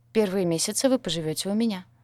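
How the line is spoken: Calm reply. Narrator (Russian): спокойно ответила Элла

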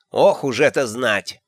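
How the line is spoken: Grumbling older woman. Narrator (Russian): буркнула матушка

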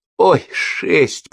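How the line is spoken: Moaning woman. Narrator (Russian): простонала эстонка

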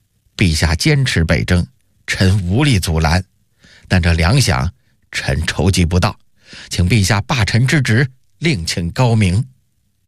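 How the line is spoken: Cold, deeply disappointed. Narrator (Chinese): 夏元吉失望一极 冷冷地说道

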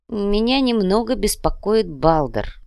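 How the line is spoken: Gloomy. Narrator (Russian): мрачно произнес Фридрих

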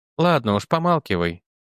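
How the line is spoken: Sigh. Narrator (Russian): вздохнула Энни

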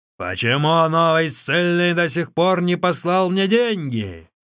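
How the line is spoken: Shouting. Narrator (Russian): Начальник тюрьмы кричал

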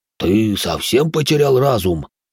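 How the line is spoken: Calmer exhaled words. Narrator (Russian): выдохнул успокоившийся было Иоши

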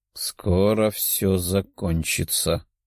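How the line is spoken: Muttering. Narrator (Russian): пробормотала она

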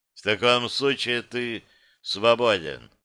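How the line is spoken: Utterly indifferent tone. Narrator (Russian): заговорил я абсолютно безразличным тоном

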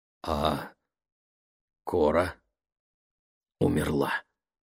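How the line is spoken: Hoarse reply. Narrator (Russian): хрипло ответила Ленни

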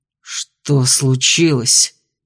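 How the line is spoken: Growling question. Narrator (Russian): вопросил рычаще

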